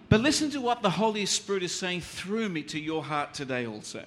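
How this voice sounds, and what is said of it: English with a foreign accent. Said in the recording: “understand my accent”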